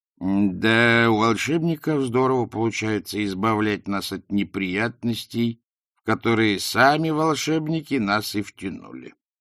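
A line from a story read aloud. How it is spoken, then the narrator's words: Muttered. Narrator (Russian): буркнул Криозот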